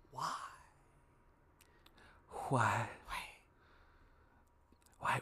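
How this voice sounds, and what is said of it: Whispering. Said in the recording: “We're whispering”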